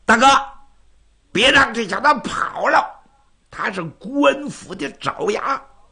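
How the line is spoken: Shouting. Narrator (Chinese): 花蝴蝶就喊

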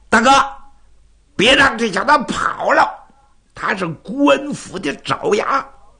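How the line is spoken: Shouting. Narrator (Chinese): 花蝴蝶就喊

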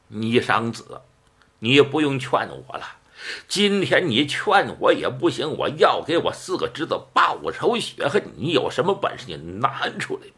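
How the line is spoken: Slight smile. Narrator (Chinese): 微含一笑

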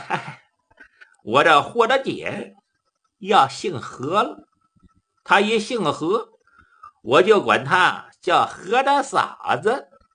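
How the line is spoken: Laughing. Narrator (Chinese): 杜林笑了

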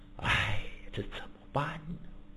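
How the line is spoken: Heavy sighing. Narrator (Chinese): 贞观天子长吁短叹

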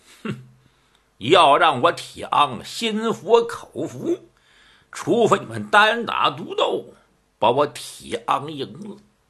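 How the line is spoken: Cold sneer. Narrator (Chinese): 铁昂一阵的冷笑

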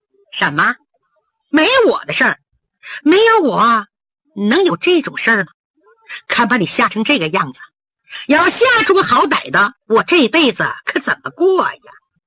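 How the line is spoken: Giggling. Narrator (Chinese): 侯国英比刚才稳重多了，噗呲一笑

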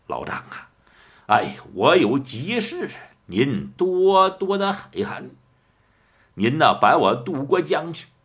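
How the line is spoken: Ingratiating, smiling. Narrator (Chinese): 白玉堂满面陪笑

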